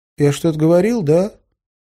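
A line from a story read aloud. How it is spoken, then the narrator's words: Timid question. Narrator (Russian): робко спросил Кеша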